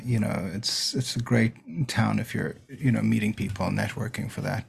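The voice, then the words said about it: Slight South African accent. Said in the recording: “I detect a bit of an accent... I actually grew up in South Africa.”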